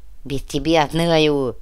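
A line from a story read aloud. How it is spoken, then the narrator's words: Spiteful words through teeth. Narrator (Russian): Одноглазый злобно … процедил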